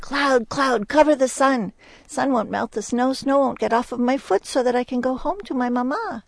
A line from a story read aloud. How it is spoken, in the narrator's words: she called out for the cloud, and she said